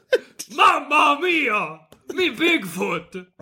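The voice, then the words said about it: Bigfoot monster voice, slight Italian accent. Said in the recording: “when me and you do his voice, he has a slight Italian accent ... I'm trying to do like a Frankenstein ... Monster accent”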